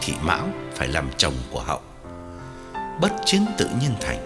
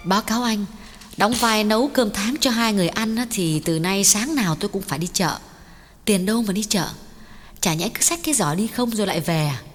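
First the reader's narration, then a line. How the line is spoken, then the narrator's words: Smiling speech. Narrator (Vietnamese): Cô mỉm cười nói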